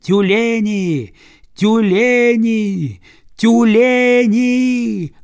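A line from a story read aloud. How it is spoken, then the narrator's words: Loud piercing cry. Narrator (Russian): Громко и пронзительно вскрикнула Акка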